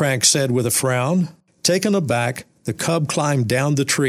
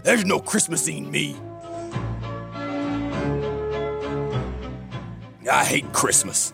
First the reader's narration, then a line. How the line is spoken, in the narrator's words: snarled with a sneer